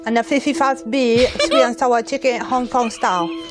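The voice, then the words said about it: Chinese-sounding broken English accent. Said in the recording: “She was Chinese accent ... that's not a Chinese accent. That's a broken English accent ... With a Chinese, from a Chinese person”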